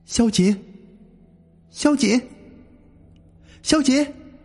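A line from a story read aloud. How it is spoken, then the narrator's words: Faint distant calling. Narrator (Chinese): 隐隐约约，似乎听到有人喊他的声音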